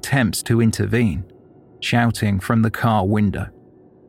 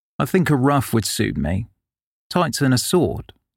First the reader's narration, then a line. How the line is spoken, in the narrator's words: he said